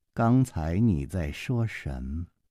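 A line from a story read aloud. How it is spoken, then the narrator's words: Slow drawl. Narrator (Chinese): 公平慢慢地回过头，用一双好像是大白果一样的眼睛瞅着陆小凤，慢吞吞地说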